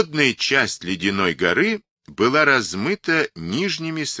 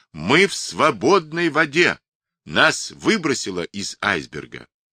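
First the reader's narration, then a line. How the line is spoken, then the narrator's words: Loud ringing astonished shout. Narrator (Russian): Окаменев на миг от изумления, капитан вдруг громко, необычно звонким голосом закричал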